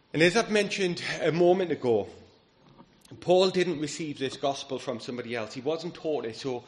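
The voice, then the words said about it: Strained, failing hoarse voice. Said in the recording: “losing my voice”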